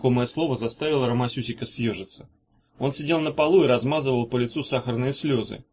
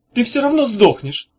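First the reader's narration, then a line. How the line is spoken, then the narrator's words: Shouted. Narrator (Russian): крикнул Ромасюсик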